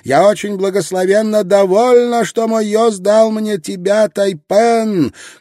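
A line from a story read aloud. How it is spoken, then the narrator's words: Shouting. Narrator (Russian): прокричала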